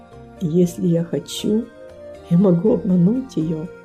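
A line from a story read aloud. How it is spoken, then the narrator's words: Quiet, to himself. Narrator (Russian): Он тихо произнес, как будто про себя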